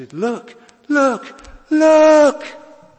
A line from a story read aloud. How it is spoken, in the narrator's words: being a primitive Methodist, he shouted